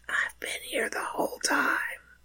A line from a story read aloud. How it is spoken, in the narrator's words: the breeze seemed to whisper back